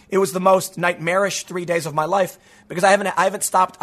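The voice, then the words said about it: Damaged, strained voice. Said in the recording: “you can still tell my voice is all messed up ... I couldn't talk”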